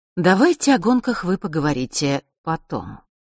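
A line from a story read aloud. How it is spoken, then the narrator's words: Gentle interruption. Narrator (Russian): мягко прервала их черная королева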